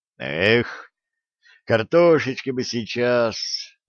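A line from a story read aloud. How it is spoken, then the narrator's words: Sigh. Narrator (Russian): вздохнул Олег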